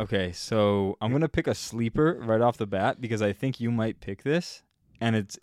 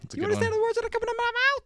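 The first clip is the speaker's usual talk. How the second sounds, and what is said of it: Imitates another person's voice. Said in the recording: “that was a terrible impression”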